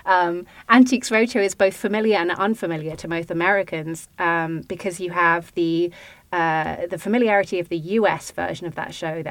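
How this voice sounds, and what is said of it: British accent. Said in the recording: “British accent person”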